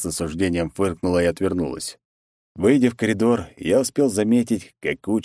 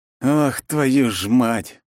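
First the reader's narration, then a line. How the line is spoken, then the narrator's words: Exhaled. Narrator (Russian): выдохнул я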